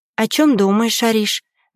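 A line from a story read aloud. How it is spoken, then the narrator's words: Soft question. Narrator (Russian): мягко спрашивает Аня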